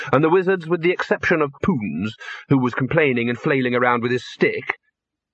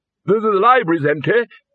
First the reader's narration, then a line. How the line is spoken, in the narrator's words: bellowed the Arch-Chancellor